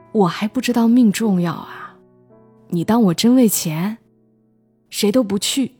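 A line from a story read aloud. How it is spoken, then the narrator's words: Sighing. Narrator (Chinese): 丁大勇叹口气说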